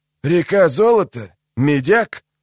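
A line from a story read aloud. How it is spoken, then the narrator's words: Sigh. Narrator (Russian): Велар Горф вздохнул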